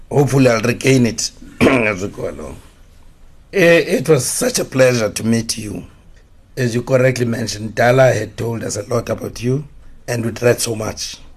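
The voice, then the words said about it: Hoarse, partly lost voice. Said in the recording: “I think I've lost my voice a little bit. You can see it's quite hoarse.”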